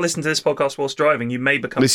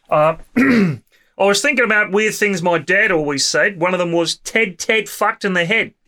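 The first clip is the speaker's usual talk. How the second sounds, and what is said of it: Put-on Australian accent. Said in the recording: “would like me to say this in my Australian accent. So apologies to any Australian listeners.”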